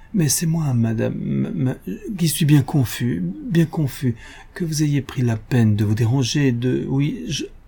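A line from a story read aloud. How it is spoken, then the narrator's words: Flustered, bewildered stammering. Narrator (French): Le bon monsieur Dumanet ému, décontenancé il balbutiait tout ahuri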